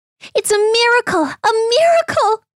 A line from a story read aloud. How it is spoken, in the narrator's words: the donkey cried out